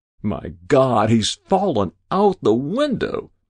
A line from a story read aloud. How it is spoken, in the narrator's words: cried a quick-witted editor